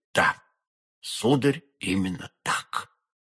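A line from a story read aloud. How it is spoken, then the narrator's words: Frightened barely audible whisper. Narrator (Russian): чуть слышно в страхе прошептал посетитель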